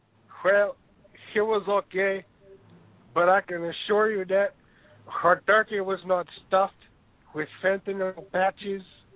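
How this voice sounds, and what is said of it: Slightly stuffy, congested voice. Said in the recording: “I have a bit of a cold.”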